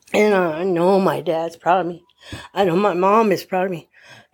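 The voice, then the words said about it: Emotional, choked-up voice. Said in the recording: “I'm just a little emotional”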